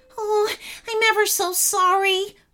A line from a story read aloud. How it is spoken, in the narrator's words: whimpered Clunky